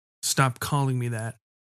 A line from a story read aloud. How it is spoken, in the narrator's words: he said flatly